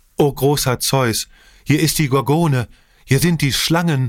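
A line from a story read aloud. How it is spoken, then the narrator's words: Sudden joyful cry. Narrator (German): mit einem plötzlichen Freudenschrei rief er aus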